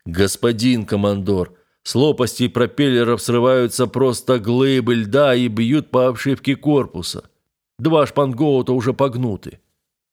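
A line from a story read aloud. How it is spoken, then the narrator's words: Deep bass voice. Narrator (Russian): боцман пробасил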